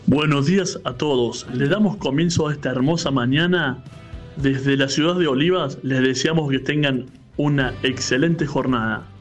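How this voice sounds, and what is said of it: Deep, thick radio announcer voice. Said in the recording (Spanish): “tiene voz de locutor ... Sí tiene una voz así, medio Paul Guzmán la voz. Así bien gruesa.”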